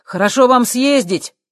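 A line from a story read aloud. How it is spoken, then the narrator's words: Shout. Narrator (Russian): крикнул Боб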